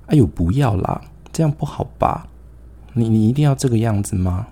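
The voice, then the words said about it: Tiny, soft young girl's voice. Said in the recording (Chinese): “我就听到有一个很细小的声音，一个女孩子，一个小女生学妹一那个声音”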